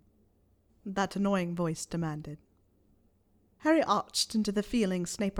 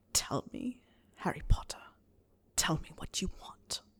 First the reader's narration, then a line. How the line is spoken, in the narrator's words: Snape hissed in a tone that wasn't that far from Postletongue